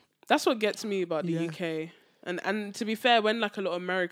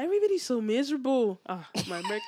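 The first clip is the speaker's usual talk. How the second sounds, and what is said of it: Botched American accent sounding Irish. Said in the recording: “You sound Irish. ... That was so off.”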